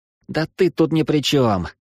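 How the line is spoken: Sighing. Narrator (Russian): вздохнул Плинто

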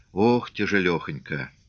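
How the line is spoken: Quiet, weary, listless. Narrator (Russian): Стерлядников в такт лошадиному шагу, обезволенно мотавший головой, тихо сказал

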